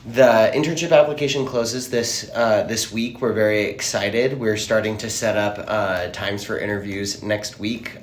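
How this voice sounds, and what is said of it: Tired, exhausted-sounding voice. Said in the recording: “I'm a little tired today. ... I sound a little exhausted right now.”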